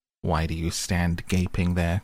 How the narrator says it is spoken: cried the dwarf

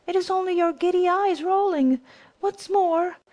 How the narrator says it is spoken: he said, pretending to laugh

